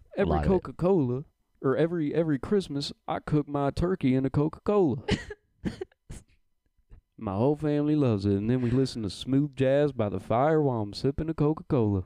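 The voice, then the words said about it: Mimicked man's voice with twang. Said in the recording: “That's your black voice? ... A little bit more twang on it. ... I was just mimicking his voice.”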